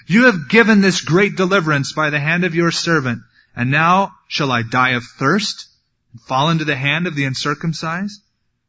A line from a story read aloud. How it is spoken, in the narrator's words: he became very thirsty, and so he cried out to the Lord, and he said